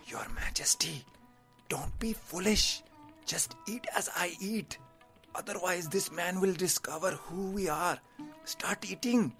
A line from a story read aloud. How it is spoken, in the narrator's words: The advisor whispered to him